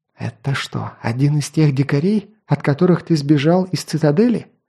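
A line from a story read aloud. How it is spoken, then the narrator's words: Quiet, through clenched teeth. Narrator (Russian): Тихо, сквозь зубы, спросила Скади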